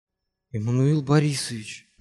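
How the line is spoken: Frightened whisper. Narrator (Russian): прошептал испуганный Симагин

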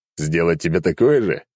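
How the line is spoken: Chuckling. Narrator (Russian): хохотнул я

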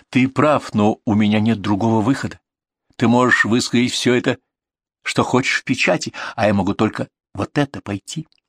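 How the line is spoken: Very soft, meek. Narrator (Russian): очень мягко, даже как-то кротко сказала

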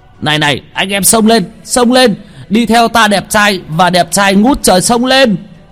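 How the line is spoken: Fat man's roaring shout. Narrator (Vietnamese): Tên mập gào lên một tiếng

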